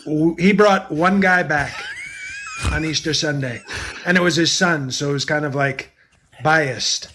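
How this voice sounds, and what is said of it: Imitates another person's voice. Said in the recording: “J.L. Cobbin, for those who are wondering who is that impersonation. It's a pretty... That might be my favorite one.”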